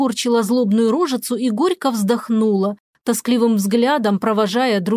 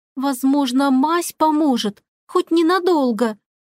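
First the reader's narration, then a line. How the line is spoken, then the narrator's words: Timid. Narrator (Russian): робко напомнила Надин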